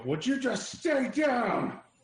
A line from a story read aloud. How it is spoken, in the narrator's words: I'm going to yell